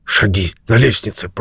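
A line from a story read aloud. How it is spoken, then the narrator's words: Whispering. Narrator (Russian): прошептал он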